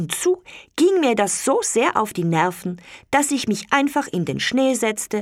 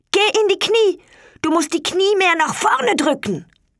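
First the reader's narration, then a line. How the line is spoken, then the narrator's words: Calling up from below. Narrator (German): rief zu mir hinauf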